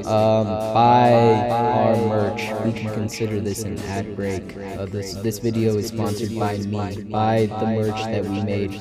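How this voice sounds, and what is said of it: Weird put-on silly voice. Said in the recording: “doing the weird voice thing”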